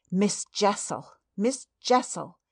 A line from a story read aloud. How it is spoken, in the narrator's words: with a gasp I echoed it